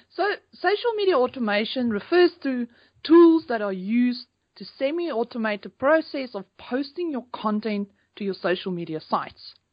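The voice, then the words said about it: South African accent. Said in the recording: “originally from South Africa ... We're sharing some accents here.”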